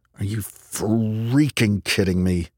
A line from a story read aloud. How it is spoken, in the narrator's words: muttered